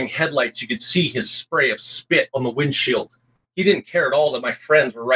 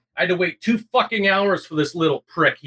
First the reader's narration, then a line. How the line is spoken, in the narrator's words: he yelled